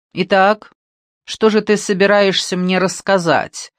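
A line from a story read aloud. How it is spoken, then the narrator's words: Bossy commanding tone. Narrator (Russian): спросил он начальственным тоном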